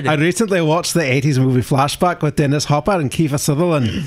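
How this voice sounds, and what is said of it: Put-on Scottish accent. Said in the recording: “he can do the Scottish accent”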